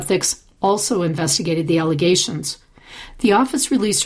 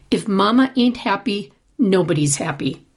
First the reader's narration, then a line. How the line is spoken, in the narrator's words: the report says